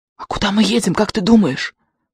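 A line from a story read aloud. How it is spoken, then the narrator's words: Whispered question. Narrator (Russian): шепотом спросил Бриско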